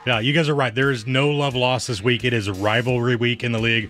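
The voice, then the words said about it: Deep, resonant radio voice. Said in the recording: “Voice from God. ... he's got the radio voice”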